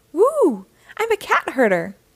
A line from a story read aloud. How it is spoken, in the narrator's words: exclaimed the cat burglar